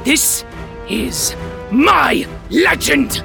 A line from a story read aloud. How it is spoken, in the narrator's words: growls